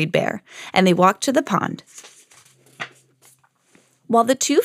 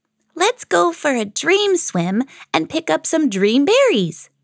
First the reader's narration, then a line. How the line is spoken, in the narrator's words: chirped Little Bird